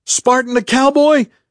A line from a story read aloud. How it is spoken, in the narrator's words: Duffy yelled in a voice that had risen past alarm to actual panic